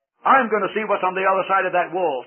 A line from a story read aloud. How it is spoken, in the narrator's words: said Christian